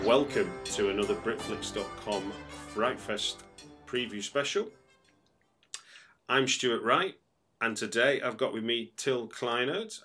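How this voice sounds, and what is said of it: Manchester English accent. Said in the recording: “That's my Manchester accent, I guess.”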